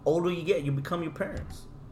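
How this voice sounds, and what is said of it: Put-on accent. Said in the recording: “Where the hell did that accent come from?”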